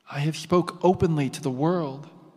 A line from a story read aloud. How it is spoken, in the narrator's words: Jesus replied